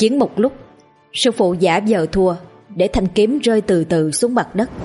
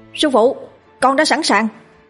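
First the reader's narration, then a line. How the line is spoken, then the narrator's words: Loud shout. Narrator (Vietnamese): Tôi hét lớn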